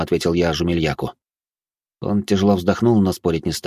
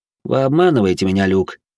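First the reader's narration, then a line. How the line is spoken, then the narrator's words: Slightly upset. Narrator (Russian): добавил он слегка расстроенным голосом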